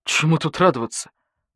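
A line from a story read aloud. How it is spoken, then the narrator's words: Badger grumbling. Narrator (Russian): буркнул барсук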